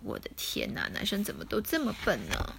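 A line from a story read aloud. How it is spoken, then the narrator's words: Sighing. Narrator (Chinese): 萨奇一边叹气一边说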